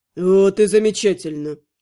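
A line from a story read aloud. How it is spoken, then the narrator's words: Satisfied grunt. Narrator (Russian): удовлетворенно хмыкнул ведьмак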